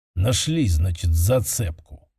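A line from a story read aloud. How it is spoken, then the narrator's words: Gloomy muttering. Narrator (Russian): хмуро пробормотала она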